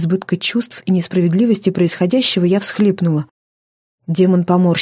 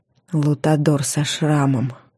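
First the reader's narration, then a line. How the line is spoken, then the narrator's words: Thoughtful drawl. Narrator (Russian): задумчиво протянул он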